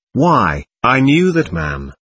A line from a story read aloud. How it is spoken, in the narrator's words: her visitor exclaimed